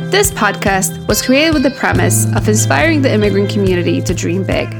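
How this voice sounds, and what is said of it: Speaks with a foreign accent. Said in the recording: “the winner of the cutest accent award in high school”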